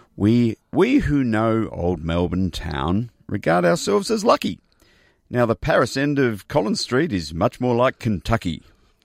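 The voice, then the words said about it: Theatrical poetry reading voice. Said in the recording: “In my best poetry reading voice.”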